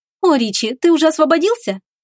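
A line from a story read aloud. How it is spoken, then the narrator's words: Joyful chirping. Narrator (Russian): радостно защебетала она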